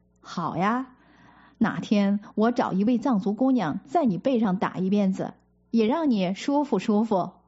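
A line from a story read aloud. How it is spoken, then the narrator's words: Suppressing laughter. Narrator (Chinese): 止住笑说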